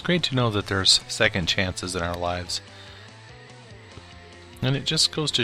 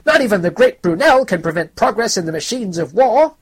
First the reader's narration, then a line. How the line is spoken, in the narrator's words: one of them shouted